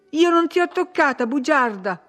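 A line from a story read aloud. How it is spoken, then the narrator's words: Angry shout. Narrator (Italian): urlò lei con le orecchie rosse dalla rabbia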